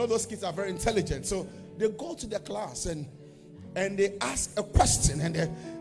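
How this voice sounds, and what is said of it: Usual voice. Nothing is said of it.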